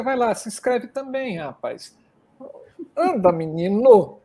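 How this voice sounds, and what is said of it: Speaks with a regional accent. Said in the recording (Portuguese): “O ... com esse sotaque ... já tô até de sotaque”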